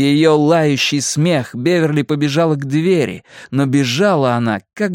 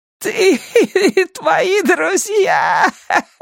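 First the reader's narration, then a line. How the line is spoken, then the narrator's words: Laughing shout. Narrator (Russian): Смеясь, кричала ведьма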